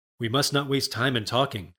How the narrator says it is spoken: said she

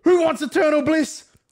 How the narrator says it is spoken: screamed

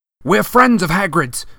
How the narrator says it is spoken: Harry shouted

